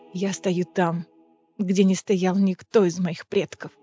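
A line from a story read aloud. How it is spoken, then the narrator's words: Choked whisper. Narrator (Russian): сдавленно прошептала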